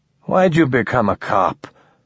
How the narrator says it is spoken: the man asked, his voice already slurred by exhaustion and impending sleep

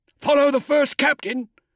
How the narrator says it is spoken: shouted Sergeant Tor

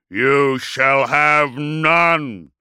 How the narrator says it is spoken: roared Magnaric

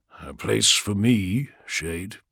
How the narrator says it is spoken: said Vulcan calmly

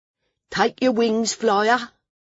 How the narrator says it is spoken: a voice said sharply

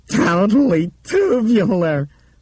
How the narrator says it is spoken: Bethany yelled happily

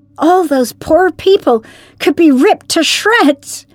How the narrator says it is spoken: cried Perry

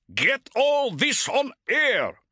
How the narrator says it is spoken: shouted Vorloff

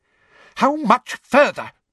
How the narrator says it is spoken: demanded Umbridge angrily from behind him

